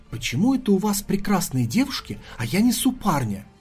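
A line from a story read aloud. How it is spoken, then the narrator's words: Whisper. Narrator (Russian): шепнул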